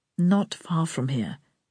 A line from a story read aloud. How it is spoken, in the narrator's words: he said, just as quietly